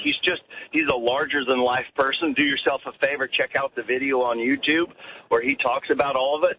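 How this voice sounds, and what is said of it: American Colorado twang. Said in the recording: “Where's that twang from? What part of America? ... That twang is from Colorado.”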